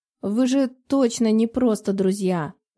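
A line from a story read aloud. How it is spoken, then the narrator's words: Finishing with a snort. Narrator (Russian): Закончила она мысль, хмыкнув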